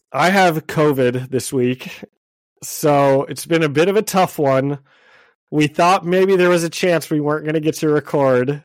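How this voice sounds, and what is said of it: Scratchy, sick-sounding voice. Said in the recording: “my voice sounds kind of scratchy”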